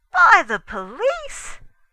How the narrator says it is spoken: I gasped

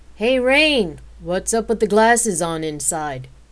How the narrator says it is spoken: Forrest enthusiastically and loudly asked

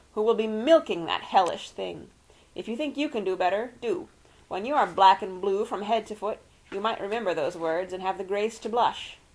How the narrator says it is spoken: told him through clenched teeth

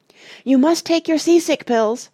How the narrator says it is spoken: shouted Dulcibel suddenly

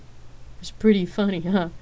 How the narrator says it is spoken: Rain asked, laughing harder

